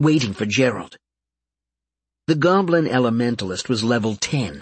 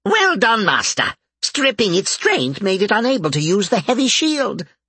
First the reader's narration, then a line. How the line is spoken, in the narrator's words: Bob cackled